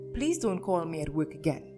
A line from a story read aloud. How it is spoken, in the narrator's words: Monica Volkov snapped